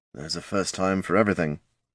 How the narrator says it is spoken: murmured Tyrone

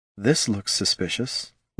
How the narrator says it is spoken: Laruna murmured

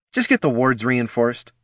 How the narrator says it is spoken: Caitha snapped back

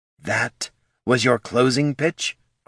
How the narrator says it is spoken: growled Ashurzu

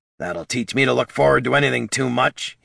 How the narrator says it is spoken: he snarled

